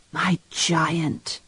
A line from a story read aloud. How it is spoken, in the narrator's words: she whispered back